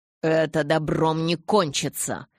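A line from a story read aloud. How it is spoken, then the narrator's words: Grumbling. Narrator (Russian): пробурчал Амон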